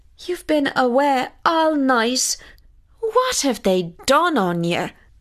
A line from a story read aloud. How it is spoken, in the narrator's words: cried his mother